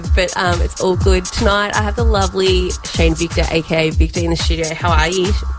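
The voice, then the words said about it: Nasal, congested voice. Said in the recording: “if I sound a bit nasally or more nasal than normal. I've got a bit of a cold”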